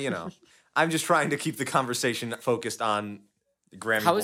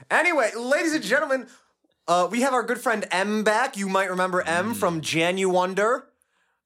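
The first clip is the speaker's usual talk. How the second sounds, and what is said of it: Yelling loudly. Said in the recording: “Why are you yelling?”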